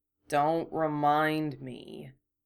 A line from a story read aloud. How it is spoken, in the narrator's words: Harry grumbled